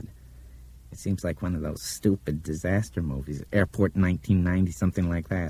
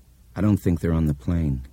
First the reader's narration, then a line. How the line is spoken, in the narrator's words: Laurel said gravely